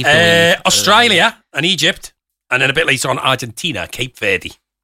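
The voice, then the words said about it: Put-on Australian accent. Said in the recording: “you only did the Australian accent there”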